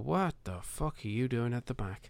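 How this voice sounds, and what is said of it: Weak attempt at Cork accent. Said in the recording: “I can kind of get away with doing a Cork. Well, I can't really do a Cork accent”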